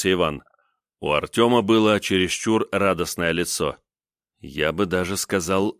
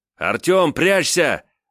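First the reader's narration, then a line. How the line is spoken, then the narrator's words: Shout. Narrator (Russian): закричал он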